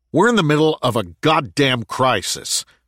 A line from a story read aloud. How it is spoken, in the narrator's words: snapped Gordon